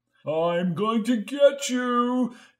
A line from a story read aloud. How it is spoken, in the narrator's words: cried Jamie, grunting and groaning